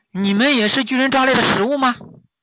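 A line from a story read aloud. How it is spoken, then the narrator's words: Correcting itself, asking. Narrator (Chinese): 猴子叫完就发现自己叫错了，于是就改口问道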